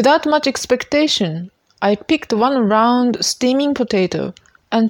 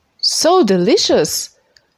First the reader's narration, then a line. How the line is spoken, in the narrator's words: exclaimed